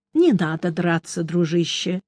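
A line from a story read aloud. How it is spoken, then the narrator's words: Soft, inner voice. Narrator (Russian): мягко сказал я внутренне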